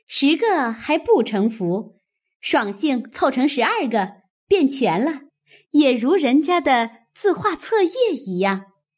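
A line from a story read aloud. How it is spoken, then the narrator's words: Laughing. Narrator (Chinese): 湘云又笑道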